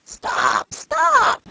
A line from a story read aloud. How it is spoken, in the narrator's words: cried she, pretending to be smothered